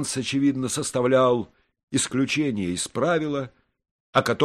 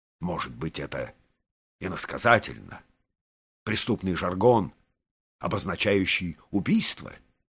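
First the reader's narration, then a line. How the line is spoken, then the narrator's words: Quiet question. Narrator (Russian): тихо спросил министр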